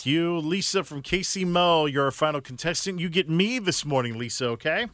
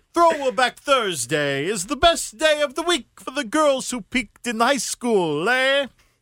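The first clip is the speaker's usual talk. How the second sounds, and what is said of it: Put-on Italian accent. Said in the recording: “What sort of accent do you think that was? ... It was Italian.”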